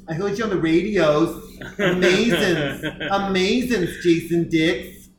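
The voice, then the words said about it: Put-on Boston accent. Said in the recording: “why I would never live in Boston as a single man... The voice... that exact accent”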